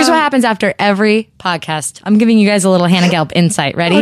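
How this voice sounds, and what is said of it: Usual voice. Nothing is said of it.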